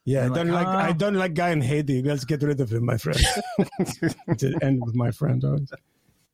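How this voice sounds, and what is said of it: Put-on Greek accent. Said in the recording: “it's kind of a Greek accent.”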